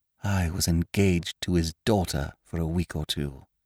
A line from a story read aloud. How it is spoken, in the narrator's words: I said in a hushed voice